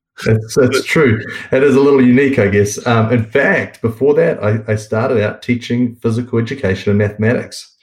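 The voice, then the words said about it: New Zealand accent. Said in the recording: “the great accent that ... has. is from New Zealand.”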